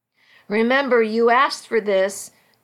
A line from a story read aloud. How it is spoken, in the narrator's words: Carlo said with a laugh